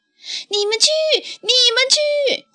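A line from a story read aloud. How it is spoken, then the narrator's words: Anxious shouting. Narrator (Chinese): 皮卡着急地朝爷爷奶奶大声叫着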